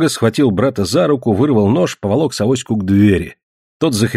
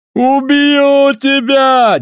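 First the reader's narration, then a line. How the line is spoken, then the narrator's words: Wild yell. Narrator (Russian): дико заорал Савоська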